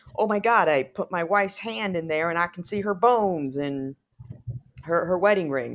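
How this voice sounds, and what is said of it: Put-on Southern accent. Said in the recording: “a Southern accent”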